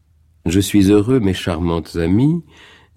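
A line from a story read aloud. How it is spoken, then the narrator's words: Viennese-accented speech. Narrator (French): dit le petit professeur avec un accent qui gardait quelque chose de viennois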